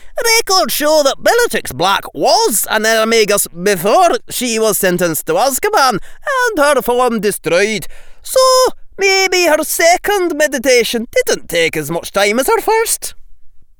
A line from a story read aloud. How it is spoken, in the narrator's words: Thignessy barked